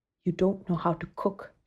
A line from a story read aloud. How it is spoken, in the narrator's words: she whispered one night to Geeta